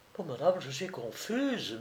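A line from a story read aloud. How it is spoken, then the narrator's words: Murmuring. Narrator (French): murmurait Marie-Thérèse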